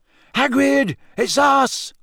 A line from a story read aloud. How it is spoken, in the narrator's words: Harry shouted